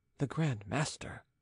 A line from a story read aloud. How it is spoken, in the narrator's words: muttered the envoy